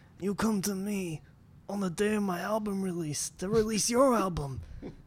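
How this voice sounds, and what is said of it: Godfather character impression. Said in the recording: “pretty good Godfather impression”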